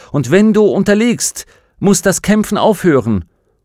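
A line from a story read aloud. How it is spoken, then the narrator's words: Calling out. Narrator (German): rief Will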